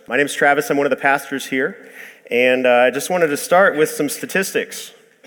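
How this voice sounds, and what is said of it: Weak, sick-sounding voice. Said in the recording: “I've been sick all week. My voice is just not fully there”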